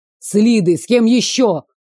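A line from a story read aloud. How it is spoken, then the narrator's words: Barking into phone. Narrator (Russian): рявкнул в трубку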